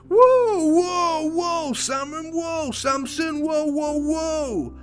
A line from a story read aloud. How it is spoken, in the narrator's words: the prince shouted